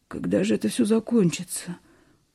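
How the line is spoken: Tired whisper. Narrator (Russian): устало прошептал Семен

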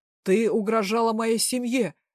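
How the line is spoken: Angry bark. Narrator (Russian): рявкнул папа

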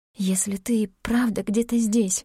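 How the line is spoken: Whisper. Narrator (Russian): прошептала она

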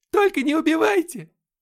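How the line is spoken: Woman's shriek. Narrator (Russian): Завизжала женщина

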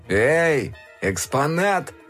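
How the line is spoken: Classmate shouting. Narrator (Russian): крикнул кто-то из одноклассников

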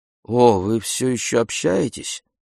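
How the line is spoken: Muttered, female. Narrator (Russian): Она пробормотала

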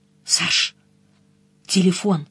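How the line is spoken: Whispered. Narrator (Russian): Денис и сказал почему-то шепотом

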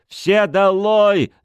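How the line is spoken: Yelling. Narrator (Russian): заорал он

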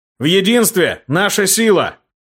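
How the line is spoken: Shout. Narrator (Russian): закричал

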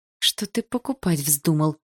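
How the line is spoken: Hissing. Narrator (Russian): прошипела я

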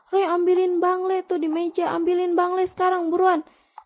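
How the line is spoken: Immediate shout. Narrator (Indonesian): Dia langsung teriak

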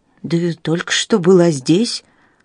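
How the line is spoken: Distracted mumble. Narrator (Russian): пробормотал Генри, с трудом отвлекаясь от мыслей о Южном полюсе

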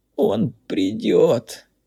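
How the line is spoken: Captive's groan. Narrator (Russian): простонал пойманный

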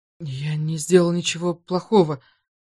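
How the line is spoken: Trembling voice. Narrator (Russian): сказал массажист дрожащим голосом

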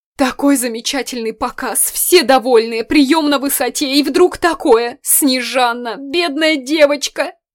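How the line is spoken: Sobbing. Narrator (Russian): Регина всхлипнула

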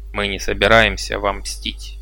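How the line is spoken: Grumbled reply. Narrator (Russian): буркнул Дабара в ответ

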